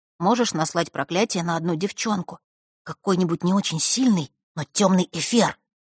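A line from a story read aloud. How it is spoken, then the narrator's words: Wary whisper. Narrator (Russian): зашептал он, с опаской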